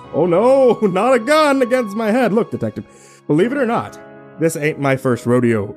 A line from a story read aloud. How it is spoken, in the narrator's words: Jerry just chuckled and said sarcastically